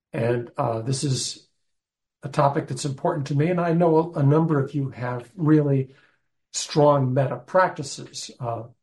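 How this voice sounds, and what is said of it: Strange, ill-sounding voice. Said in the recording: “I'm actually getting over not just bronchitis, pneumonia. So my voice is going to be a little strange. It sounds strange to me.”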